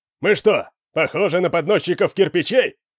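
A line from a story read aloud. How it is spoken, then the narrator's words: Shout. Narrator (Russian): крикнул кто-то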